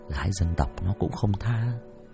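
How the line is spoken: Muttered. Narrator (Vietnamese): thằng bạn lẩm bẩm

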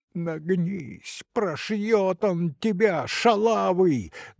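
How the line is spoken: Loud shout. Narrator (Russian): громко выкрикнул Сашка

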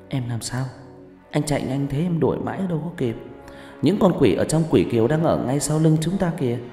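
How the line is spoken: Giggling. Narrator (Vietnamese): Kiều Nhi cười khúc khích

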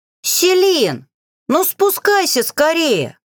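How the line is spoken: Young witches shouting. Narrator (Russian): крикнули разбуженные магом ведьмочки

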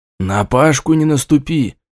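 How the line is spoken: Whisper. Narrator (Russian): шепнул я

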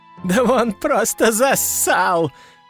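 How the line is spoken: Loud laughter. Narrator (Russian): расхохотался принц

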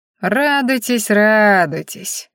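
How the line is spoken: Vengeful drawl. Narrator (Russian): мстительно протянул он

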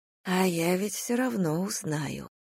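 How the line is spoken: Whisper. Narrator (Russian): прошептала я

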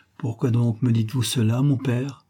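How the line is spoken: Stammering. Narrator (French): balbutia-t-elle

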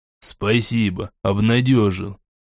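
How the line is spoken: Grumbling. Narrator (Russian): пробурчал Гвоздь

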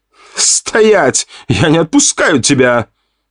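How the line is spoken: Shout after someone. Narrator (Russian): крикнул мне в спину

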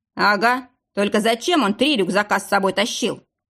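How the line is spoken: Skeptical snort. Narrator (Russian): хмыкнул Михалыч

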